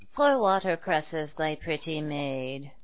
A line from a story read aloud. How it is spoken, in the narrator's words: mumbled the poor old woman